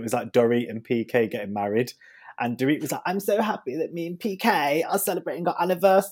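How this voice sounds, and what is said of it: Usual voice. Nothing is said of it.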